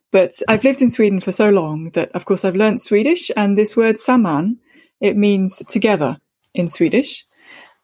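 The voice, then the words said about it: British accent. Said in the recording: “I grew up in the UK, which is why I sound very British”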